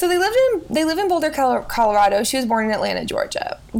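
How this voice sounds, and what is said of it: Usual voice. Nothing is said of it.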